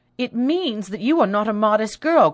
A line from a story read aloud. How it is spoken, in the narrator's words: cried Rosalind